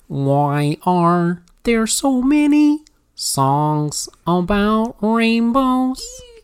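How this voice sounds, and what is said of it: Weak Kermit the Frog impression. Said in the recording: “in my Kermit voice, which is not very good.”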